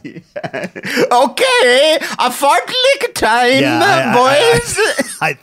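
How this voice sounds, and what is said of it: Bad put-on Swedish accent. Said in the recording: “Swedish accent ... I think it was some version of Minnesota and Austria ... Well, it is terrible”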